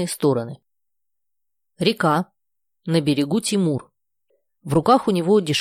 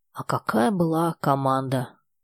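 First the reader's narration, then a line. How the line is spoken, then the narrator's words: Very quiet, surprised. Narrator (Russian): совсем тихо, удивленно заканчивает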